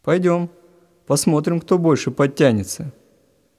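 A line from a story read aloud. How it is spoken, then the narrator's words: Cheerful reply. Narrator (Russian): Весело откликнулся тот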